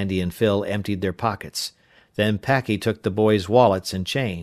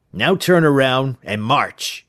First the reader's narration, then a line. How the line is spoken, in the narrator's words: Packy snapped